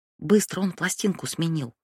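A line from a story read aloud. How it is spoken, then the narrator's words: Whisper. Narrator (Russian): прошептала Хадия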